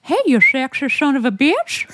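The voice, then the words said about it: Impression of Mr. Herbert, Family Guy. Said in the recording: “I used to do an impression of Mr. Herbert... Family Guy voice”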